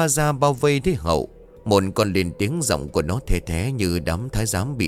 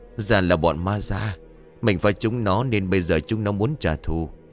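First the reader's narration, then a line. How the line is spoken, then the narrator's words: Muttered. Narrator (Vietnamese): Thằng Hậu liền lẩm bẩm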